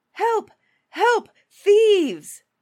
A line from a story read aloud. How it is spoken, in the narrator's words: cried the cook